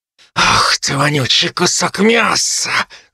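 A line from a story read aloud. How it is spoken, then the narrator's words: Hissed. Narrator (Russian): зашипела она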